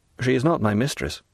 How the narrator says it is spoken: replied the young sailor gravely

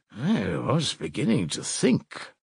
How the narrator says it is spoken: muttered Zossimov

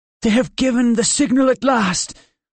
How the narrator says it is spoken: cried the Pharisee

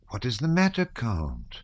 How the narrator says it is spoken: asked the Countess in a surprised and commiserating tone

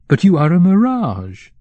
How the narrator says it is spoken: Kovrin exclaimed

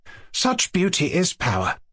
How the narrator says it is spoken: said Adelaida warmly

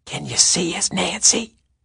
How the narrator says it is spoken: Caddy whispered

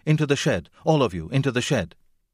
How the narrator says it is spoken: cried

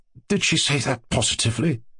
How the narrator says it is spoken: He asked, and there was a quaver in his voice

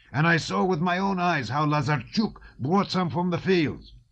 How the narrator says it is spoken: Denisov was shouting

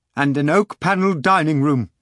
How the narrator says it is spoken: cried Deniskin

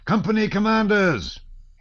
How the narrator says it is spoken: he shouted in a voice accustomed to command

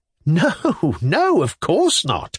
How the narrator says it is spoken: replied Velchaninoff, laughing

